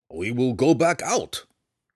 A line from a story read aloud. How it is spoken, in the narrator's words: Belwar growled